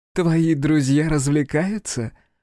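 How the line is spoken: Woman's chuckle. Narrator (Russian): хохотнула женщина

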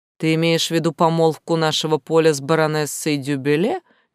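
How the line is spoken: Calm, casual question. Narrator (Russian): абсолютно спокойно и даже как-то буднично спросил он

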